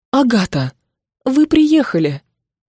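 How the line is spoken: Relieved exhale. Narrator (Russian): Волчица облегченно выдохнула

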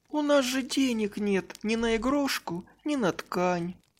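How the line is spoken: Sad girl. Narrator (Russian): грустно сказала девочка

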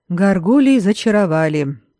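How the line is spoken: Hoarse, sleepy reply. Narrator (Russian): хрипловато, словно с просонья, откликнулся Адальред

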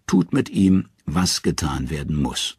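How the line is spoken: Tired answer. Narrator (German): antwortet müde

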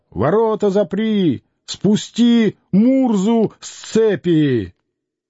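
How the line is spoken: Stern shout from above. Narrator (Russian): сверху, как будто с крыши, суровый голос кричал

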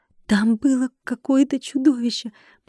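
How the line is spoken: Lowered-voice whisper. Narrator (Russian): понизив голос, прошептала я

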